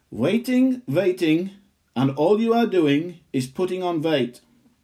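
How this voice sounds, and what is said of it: Put-on Indian accent. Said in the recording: “I'm going to say it in an Indian accent.”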